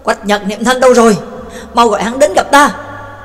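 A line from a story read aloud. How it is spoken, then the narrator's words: Loud commanding shout. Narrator (Vietnamese): Tước Mẫu Vương lại quát lớn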